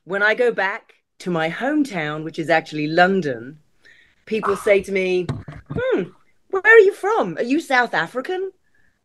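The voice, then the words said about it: Mixed, hard-to-place English accent. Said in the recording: “things got real messy with my accent... that accent's a little messed up”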